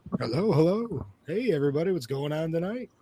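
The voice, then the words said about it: Weird put-on radio voice. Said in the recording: “put on a weird radio voice”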